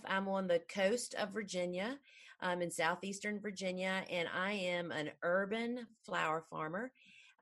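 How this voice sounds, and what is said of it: Southern US accent. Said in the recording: “If you can't tell from my accent, I am kind of in the South.”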